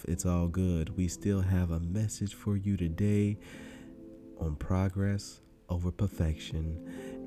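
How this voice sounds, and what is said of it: Congested, slightly off voice. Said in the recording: “my allergies have been kicking my ass. So excuse me if my voice is a little off.”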